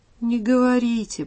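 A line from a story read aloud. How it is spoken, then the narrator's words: Dejected plea. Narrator (Russian): просит Костя уныло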